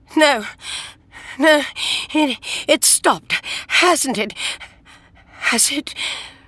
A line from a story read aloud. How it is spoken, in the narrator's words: as she screamed